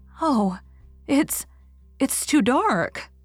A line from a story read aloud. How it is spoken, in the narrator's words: cried Anne